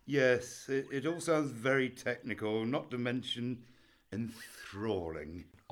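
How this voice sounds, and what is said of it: Sarcastic delivery. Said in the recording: “I was being sarcastic.”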